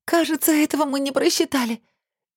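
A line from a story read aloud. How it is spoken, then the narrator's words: Whimpering in pain. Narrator (Russian): кривясь от боли захныкала Лилечка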